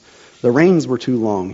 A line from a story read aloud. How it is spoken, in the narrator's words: he said